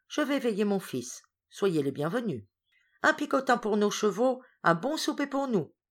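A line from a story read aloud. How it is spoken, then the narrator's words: Exclaiming. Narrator (French): s'écria Hippel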